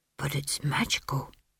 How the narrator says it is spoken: whispered

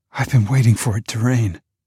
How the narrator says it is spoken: She gasps

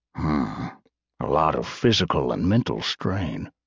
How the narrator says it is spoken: Sam muttered to himself

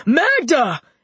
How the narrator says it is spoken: Nikki yelled

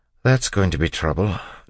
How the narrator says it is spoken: Doxson said, sighing

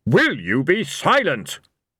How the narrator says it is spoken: Blind Io thundered

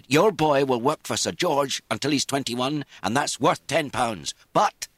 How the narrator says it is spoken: he raised his voice

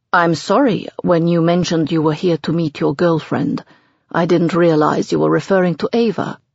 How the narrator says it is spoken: Michael says coolly

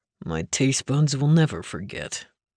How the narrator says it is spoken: Link muttered

